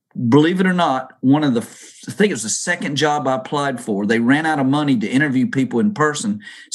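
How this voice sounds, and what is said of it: Southern American accent. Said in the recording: “we're going to have to get rid of your Southern accent ... don't let my Southern accent throw you”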